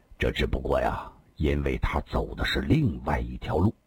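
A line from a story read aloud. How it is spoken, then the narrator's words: Deep, grave voice. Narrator (Chinese): 李寻欢沉声地说道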